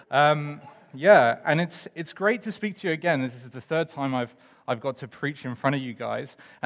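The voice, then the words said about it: English accent. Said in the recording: “I am not from Scotland. ... My accent is apparently wearing a little bit thin the more time I spend with you. ... But I am English”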